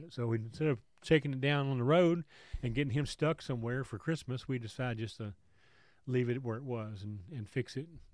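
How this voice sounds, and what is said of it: Congested, sick-sounding voice. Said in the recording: “I'm still getting over the COVID crud. I don't really feel as bad as I sound ... I've got a bad cold, you know, congestion”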